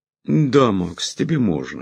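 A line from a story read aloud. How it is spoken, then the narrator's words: Calm agreement. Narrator (Russian): спокойно согласился Лонли Локли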